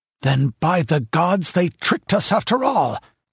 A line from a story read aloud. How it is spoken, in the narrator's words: exclaimed Brühl in a fury